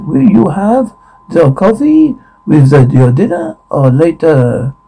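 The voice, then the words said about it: Waiter with French accent. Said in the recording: “Waiter, French accent.”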